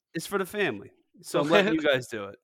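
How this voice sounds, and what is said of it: Slight put-on accent. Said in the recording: “I like the little accent you're adding on right there.”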